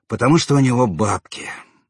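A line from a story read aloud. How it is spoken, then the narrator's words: Grumbled mutter. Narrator (Russian): буркнул Брызжак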